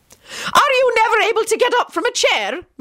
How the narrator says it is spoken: Minerva barked out

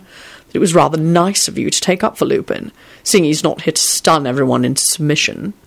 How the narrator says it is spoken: said Quentin in his affronted tone

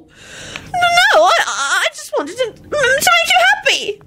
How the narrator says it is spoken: Loretta whined

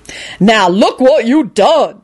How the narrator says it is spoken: she bellowed at Lupin

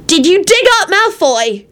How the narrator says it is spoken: He shouted accusingly at Quentin

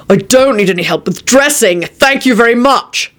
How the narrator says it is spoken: shouted Quentin

